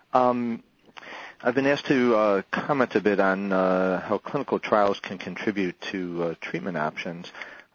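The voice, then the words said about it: Hoarse, congested voice. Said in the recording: “apologize for my voice. I'm in the middle of a cold right now.”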